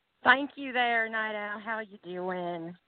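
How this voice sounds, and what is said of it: Country twang accent. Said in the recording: “that country twang”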